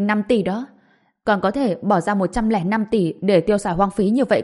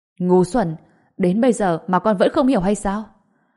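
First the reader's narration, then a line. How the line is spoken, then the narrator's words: Furious loud shout. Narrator (Vietnamese): Đỗ Kỳ Phong giận dữ, phẫn nộ mà thét lớn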